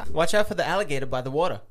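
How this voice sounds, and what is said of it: Convincing put-on Australian accent. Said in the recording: “That was Australian. ... You're actually really good at it.”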